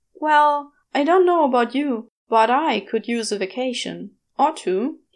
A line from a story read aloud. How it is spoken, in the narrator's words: he adds with a stiff chuckle